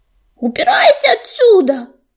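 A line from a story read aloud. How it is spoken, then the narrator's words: Yelled. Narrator (Russian): заорал грачик на старика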